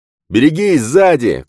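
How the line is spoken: Shout from above. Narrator (Russian): крикнул сверху Костас

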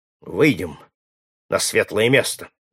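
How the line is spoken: Calm. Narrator (Russian): ответил спокойно Симон Черный

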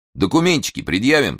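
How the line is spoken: Stern order, policeman. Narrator (Russian): строго приказал милиционер

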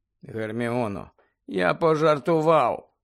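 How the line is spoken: Tired voice. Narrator (Ukrainian): втомлено сказав Гаррі

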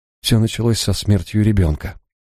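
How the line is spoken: Quiet. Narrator (Russian): тихо заговорила она

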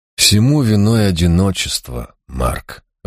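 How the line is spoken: Sighing. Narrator (Russian): вздохнул я

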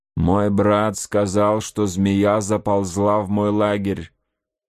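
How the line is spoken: Plain. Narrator (Russian): сказал вождь Гурону

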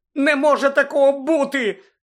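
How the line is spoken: Shouting. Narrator (Ukrainian): крикнула Герміона

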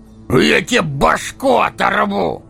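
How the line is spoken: Bellowed by huge man. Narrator (Russian): гаркнул громадина

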